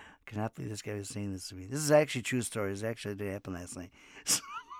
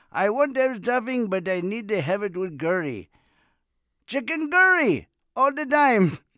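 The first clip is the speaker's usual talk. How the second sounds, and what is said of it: Heavy Indian accent imitation. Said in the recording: “he really talk like that heavy accent”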